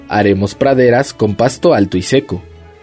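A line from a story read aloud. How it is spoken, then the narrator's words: Roaring lion. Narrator (Spanish): rugió el león sabio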